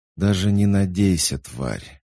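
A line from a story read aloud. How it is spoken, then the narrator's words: Through gritted teeth. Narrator (Russian): сквозь зубы процедила лейтенант Грин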